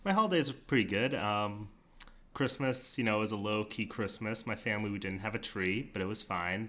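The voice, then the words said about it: Nasal voice, slightly congested. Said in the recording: “I spent with a little bit of a cold, so if my voice sounds a little bit, like, more nasally than usual, that's why.”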